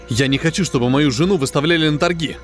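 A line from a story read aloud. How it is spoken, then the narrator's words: Sharp interruption. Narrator (Russian): резко прервал главного интенданта Крафт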